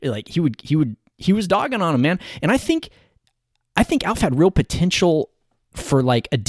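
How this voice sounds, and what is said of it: Usual voice. Nothing is said of it.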